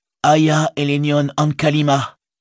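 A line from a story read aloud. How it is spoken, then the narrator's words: Shouted. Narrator (French): cria Frodo à son tour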